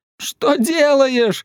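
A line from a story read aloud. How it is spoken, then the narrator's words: Shouting. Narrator (Russian): закричал он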